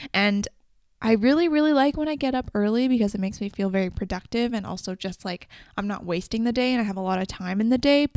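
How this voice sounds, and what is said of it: Very fast, excited speech. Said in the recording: “I feel like I'm talking so fast right now”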